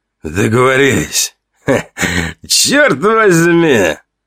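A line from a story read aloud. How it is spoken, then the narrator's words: Hoarse, strained voice. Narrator (Russian): объявил хриплым, сорванным голосом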